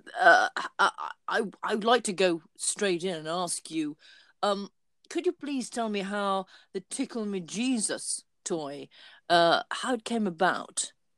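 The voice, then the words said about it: English accent. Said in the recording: “you have a very interesting accent, and I love it ... I wish I had an English accent”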